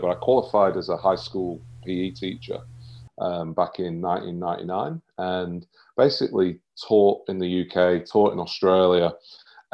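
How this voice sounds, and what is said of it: British accent. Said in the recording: “I'm from the UK, as the accent might give it away”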